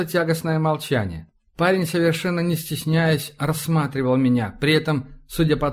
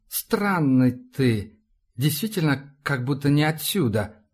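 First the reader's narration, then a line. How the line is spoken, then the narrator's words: Drawled. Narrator (Russian): протянул парень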